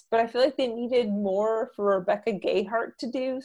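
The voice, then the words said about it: Rising question-like intonation. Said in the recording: “my perpetual question accent”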